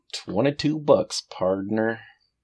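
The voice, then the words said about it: Put-on American accent. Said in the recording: “can you say that with an American accent?”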